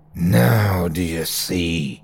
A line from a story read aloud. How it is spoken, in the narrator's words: Terry's voice hissed